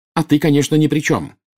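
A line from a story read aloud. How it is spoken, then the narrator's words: Angry shout. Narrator (Russian): гневно выкрикнула Белатриса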